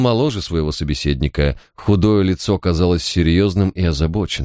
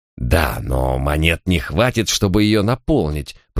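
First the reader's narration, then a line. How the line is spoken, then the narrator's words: Through gritted teeth. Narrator (Russian): процедил мэр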